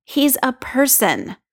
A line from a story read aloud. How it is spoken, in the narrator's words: Steve says